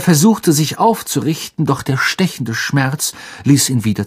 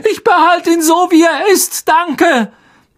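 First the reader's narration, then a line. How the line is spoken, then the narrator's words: Shouted. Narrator (German): schrie Harry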